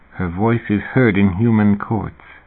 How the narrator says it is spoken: David murmured

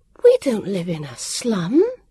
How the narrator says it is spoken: Vivian said indignantly

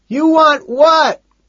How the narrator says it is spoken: He shouts back

